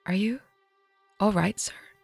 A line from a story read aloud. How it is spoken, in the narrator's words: he said softly